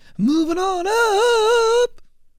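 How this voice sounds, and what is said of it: Singing in falsetto. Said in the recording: “That's falsetto. It's the best I could do on the spot.”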